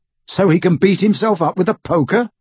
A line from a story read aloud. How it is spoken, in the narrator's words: snorted Harry